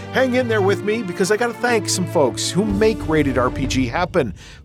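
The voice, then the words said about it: Dry, worn-out voice. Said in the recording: “my voice is a little dried out”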